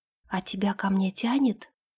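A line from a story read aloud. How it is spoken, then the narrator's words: Quiet question. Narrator (Russian): тихо спросила Ирга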